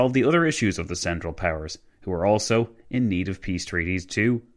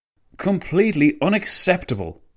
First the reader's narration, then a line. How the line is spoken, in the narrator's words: the Italian premier spat